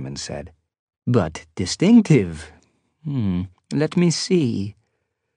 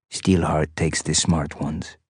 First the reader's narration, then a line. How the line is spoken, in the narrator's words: Abraham said softly